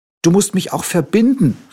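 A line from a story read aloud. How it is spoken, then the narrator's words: Little tiger calling. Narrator (German): rief der kleine Tiger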